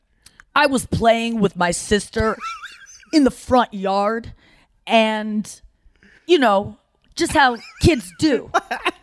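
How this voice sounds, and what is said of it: Imitates another person's voice. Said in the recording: “I don't know how to do an impression of him. ... That's pretty good.”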